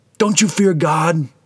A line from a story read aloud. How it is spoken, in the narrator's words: shouts at the other